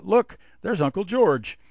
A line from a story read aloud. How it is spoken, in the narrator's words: Suddenly the boy called out